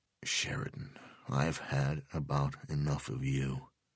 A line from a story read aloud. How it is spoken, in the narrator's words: said quietly